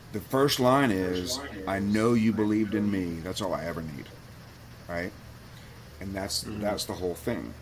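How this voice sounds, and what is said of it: Emotional, choked-up voice. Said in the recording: “I might get a little emotional here ... Sorry, I'm getting a little emotional here ... before I get choked up”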